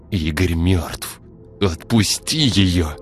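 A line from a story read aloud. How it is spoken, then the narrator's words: Strained through gritted teeth. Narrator (Russian): скрипнув зубами, выдавил Артем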